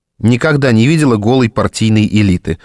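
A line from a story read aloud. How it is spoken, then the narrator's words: Snort. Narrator (Russian): хмыкнула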